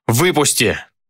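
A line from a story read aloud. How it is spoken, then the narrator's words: Shout. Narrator (Russian): закричал я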